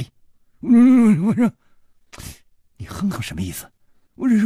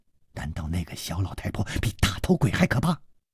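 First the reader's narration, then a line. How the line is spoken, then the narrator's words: Hushed voice. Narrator (Chinese): 刘大姐压低了声音说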